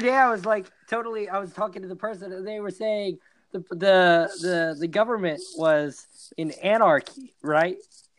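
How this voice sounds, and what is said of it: Strained, fading voice. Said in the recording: “My voice is dying right now”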